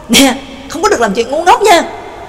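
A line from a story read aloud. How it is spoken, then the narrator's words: Loud shout. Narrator (Vietnamese): Gã lớn tiếng quát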